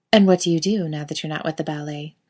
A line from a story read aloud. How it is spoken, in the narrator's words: Kate asks